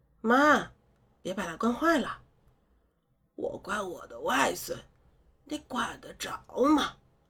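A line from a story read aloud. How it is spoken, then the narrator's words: Sweet laugh. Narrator (Chinese): 我闻言甜甜笑了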